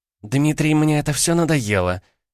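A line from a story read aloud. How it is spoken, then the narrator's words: Rather sharp. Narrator (Russian): ответила она довольно резко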